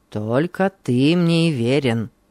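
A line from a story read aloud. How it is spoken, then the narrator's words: Grumbled. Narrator (Russian): проворчал он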